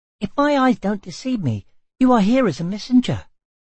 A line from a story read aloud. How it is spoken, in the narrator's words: The tiny chirped